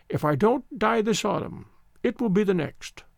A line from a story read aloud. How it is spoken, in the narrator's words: the old voice quavered